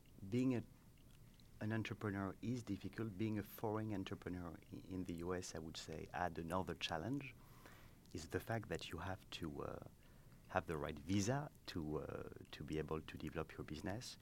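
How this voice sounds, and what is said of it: French accent. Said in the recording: “as you can hear at my accent, I'm not from here. I come from France.”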